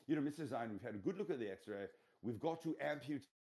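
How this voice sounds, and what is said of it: Put-on British accent. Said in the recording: “those Brits could tell you anything ... The accent, it's so nice.”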